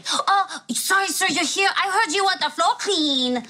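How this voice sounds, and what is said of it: Put-on offensive accent. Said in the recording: “Whatever accent you're just doing, it's very offensive.”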